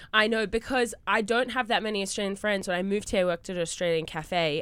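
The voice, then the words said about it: Australian accent. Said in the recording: “Your accent is the I live. ... In Australia for a while”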